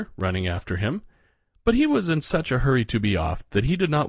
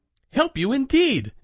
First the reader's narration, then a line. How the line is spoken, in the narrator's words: exclaimed Medio Pollito